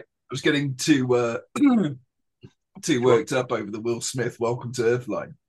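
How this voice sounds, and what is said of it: Hoarse, strained, fading voice. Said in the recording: “my voice is going”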